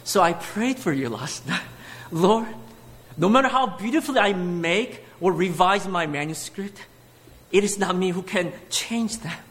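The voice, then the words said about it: Speaker's own noticeable accent. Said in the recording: “you have to get used to this beautiful accent”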